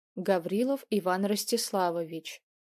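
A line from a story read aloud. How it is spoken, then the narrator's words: Quiet. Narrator (Russian): тихо произнес Громов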